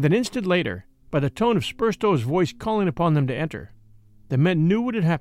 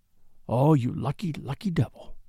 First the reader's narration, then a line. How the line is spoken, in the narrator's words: he whispered